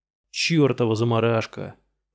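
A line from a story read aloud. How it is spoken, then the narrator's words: Grumbling. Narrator (Russian): проворчал грузчик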